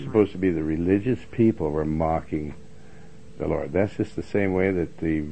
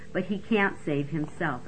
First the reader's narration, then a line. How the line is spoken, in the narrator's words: scoffed